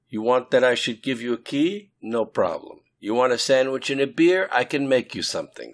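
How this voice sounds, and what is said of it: Thick Brooklyn accent. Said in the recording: “with her thick Brooklyn accent”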